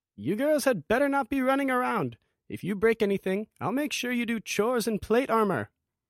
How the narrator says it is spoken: Olgarina yell from the next room

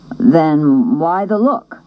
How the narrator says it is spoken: he asked

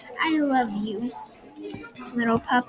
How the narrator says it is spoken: I said softly to Gizmo

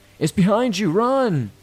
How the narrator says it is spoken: started screaming

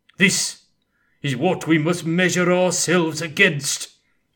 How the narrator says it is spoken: he bellowed

